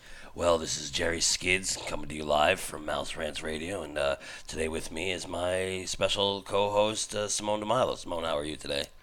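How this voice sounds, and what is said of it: Exaggerated radio announcer voice. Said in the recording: “That was my radio voice ... you're doing like a funny voice”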